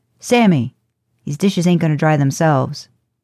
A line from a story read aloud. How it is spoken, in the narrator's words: he bellows